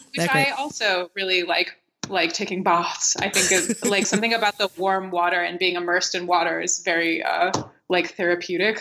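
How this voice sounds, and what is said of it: American accent. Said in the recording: “my stupid American accent”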